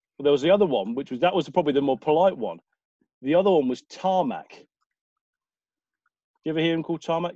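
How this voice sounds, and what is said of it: Southern English accent. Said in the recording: “my lovely Southern accent”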